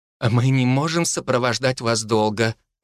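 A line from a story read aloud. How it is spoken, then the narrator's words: Sighing. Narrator (Russian): вздохнула Корнелия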